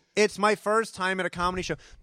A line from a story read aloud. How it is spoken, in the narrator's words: to be yelling